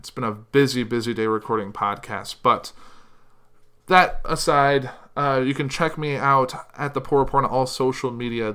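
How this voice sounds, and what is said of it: Strained, tired voice. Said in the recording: “losing my voice because this is the second podcast I've recorded today. Actually, third.”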